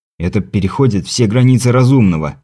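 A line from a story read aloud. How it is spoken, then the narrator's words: Grumble. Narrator (Russian): проворчал я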